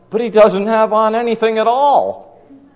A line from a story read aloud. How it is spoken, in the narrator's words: some child cried out